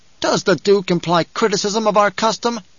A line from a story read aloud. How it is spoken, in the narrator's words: The water shipper asked in an angry voice